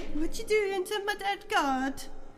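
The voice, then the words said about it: Put-on Italian accent. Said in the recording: “Is Italian ... accent ... Italian”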